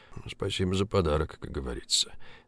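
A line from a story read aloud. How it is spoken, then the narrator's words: Thoughtful mutter. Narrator (Russian): задумчиво пробормотал Поляковский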